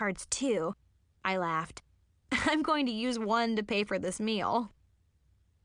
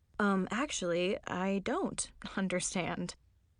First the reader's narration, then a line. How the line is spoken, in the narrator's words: mumbled